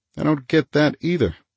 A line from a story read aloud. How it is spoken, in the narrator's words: he said tightly